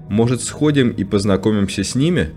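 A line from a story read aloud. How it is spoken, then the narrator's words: Plain. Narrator (Russian): спросил Пейл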